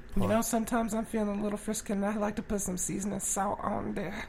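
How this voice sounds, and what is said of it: Put-on accent, cooking show host. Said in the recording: “You just have to have an accent and just talk about seasoning.”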